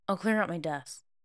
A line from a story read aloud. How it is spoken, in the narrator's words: he murmured